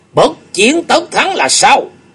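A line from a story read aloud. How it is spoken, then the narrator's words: Raised-voice question. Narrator (Vietnamese): Chu Nguyên Chương cất cao giọng hỏi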